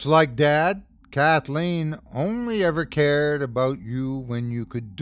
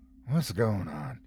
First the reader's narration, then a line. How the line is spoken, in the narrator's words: I murmured